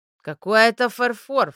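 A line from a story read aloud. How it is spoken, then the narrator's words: Tired snort. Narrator (Russian): фыркнула утомленная Лея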